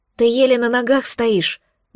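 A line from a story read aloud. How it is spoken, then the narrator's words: Breathed out. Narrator (Russian): выдохнула я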